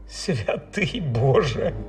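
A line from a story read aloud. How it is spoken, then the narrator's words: Bitter laugh. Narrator (Ukrainian): гірко розсміявся Річард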